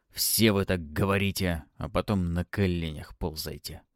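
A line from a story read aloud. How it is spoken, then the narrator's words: Shaky muttering under breath. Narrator (Russian): пробурчал под нос магистр, стараясь взять себя в руки, но выходило слабо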